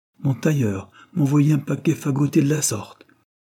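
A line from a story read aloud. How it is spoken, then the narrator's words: Exclaiming. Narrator (French): s'écria-t-il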